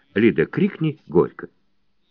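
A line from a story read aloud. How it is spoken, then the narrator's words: Quiet. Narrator (Russian): Лиде Шубиной скажет тихонько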